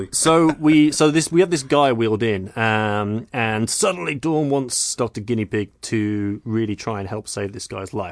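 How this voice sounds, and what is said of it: Strange pseudo-British mixed accent. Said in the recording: “It must be your strange pseudo-British accent ... it's my half and half ... accent”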